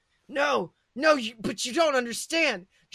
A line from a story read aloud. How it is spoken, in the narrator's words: Draco pleaded